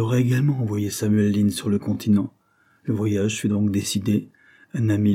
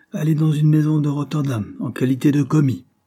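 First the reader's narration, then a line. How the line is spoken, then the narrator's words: Cried out. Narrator (French): s'écria M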